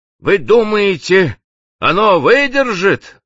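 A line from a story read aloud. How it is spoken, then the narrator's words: Exclaimed. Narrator (Russian): воскликнул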